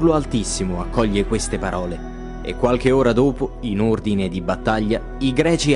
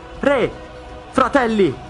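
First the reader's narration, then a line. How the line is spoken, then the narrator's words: Shouts. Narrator (Italian): grida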